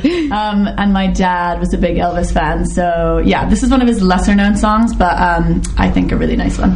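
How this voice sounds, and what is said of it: American accent. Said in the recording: “I am half American, as you can probably tell from my accent.”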